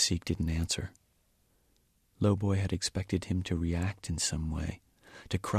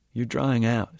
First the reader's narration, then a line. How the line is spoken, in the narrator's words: said Lowboy